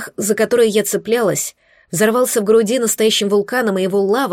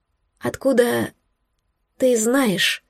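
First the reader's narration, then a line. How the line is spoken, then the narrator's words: Choked question. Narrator (Russian): спросила я перехваченным голосом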